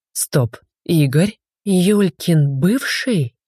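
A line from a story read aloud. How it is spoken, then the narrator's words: Trembling voice. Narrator (Russian): уточнила я дрожащим голосом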